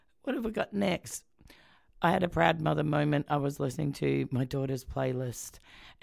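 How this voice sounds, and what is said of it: Rough, hoarse sick-sounding voice. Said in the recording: “my voice is still really crappy ... Apparently, it's some weird bronchitis.”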